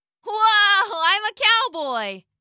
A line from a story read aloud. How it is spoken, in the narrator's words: Alec shouted